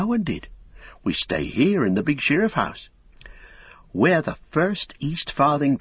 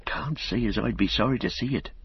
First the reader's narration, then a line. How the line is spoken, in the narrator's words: said Robin, lowering his voice